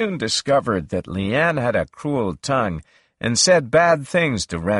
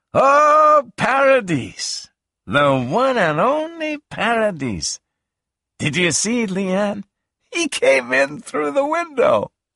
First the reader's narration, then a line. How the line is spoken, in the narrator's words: laughed and cried and screamed